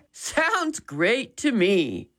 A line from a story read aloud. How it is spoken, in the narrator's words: Dad chuckled